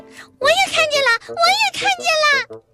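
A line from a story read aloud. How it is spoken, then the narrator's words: Excited woman shouting. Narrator (Chinese): 我的女朋友也非常激动地向我喊道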